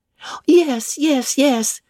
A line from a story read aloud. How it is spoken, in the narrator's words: cried all the juveniles, both ladies and gentlemen